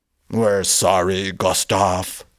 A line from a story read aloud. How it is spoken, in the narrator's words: one of them grumbled